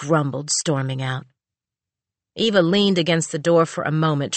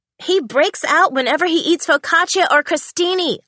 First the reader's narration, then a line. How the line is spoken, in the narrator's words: Audrey yelled from her bedroom